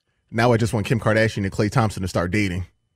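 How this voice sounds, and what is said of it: Imitates another person's voice. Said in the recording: “you got the Klay Thompson impersonation down”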